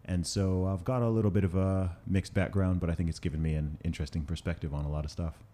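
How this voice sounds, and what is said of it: American-sounding accent, not British. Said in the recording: “I'm from the UK. I know I don't sound it with the accent, ... I went to an American school”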